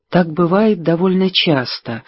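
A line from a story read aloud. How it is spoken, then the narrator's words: Quiet. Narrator (Russian): негромко сказала Элис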